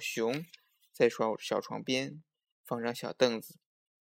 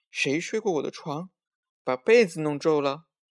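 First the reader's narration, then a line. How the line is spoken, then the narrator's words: Subdued wailing. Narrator (Chinese): 熊妈妈不那么响的哇哇叫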